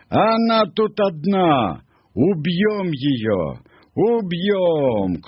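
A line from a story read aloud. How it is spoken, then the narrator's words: Monkey shouting. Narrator (Russian): одна обезьяна крикнула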